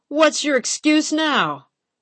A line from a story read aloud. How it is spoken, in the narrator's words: bellowed